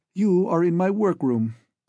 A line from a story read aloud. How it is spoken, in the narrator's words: said Reed